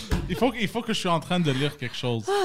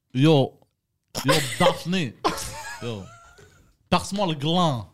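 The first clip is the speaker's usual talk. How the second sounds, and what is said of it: Bad put-on Maghrebi accent. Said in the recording (French): “le pire accent maghrébin de l'histoire de l'humanité”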